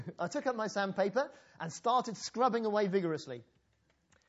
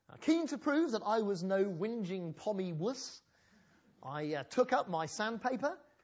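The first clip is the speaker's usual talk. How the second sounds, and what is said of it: Put-on Australian accent. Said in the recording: “I'm starting to get my Australian accent together already, aren't I?”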